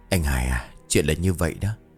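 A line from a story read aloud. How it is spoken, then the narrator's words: Sighing. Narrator (Vietnamese): Ông Hải thở dài bảo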